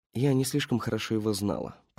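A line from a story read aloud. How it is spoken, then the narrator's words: Woman muttering. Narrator (Russian): пробормотала женщина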